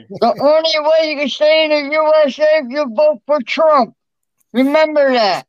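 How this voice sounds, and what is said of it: Imitates another person's voice. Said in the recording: “his impersonation of Rat Boy was probably one of the funniest impersonations”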